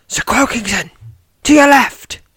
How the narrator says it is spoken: shouts Alenia

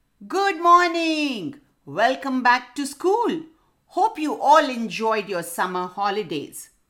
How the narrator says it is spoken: The owl hooted loudly

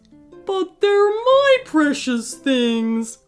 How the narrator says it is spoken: whined Mr

